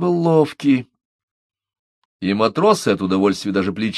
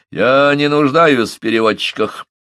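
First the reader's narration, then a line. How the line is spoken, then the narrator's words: Rude, insolent snap. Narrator (Russian): Отрезал он таким грубым и дерзким тоном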